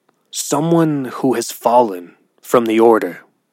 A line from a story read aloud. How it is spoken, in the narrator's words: Sushi said gravely and sighed